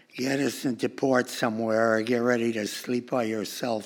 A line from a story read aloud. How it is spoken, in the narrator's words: she said